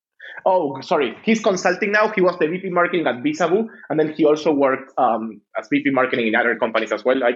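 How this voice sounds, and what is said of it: Non-native accented English. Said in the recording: “my shitty accent”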